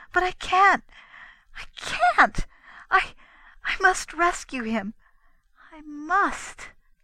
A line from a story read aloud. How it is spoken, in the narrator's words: Her feelings seemed to overcome her, and wildly, desperately, she added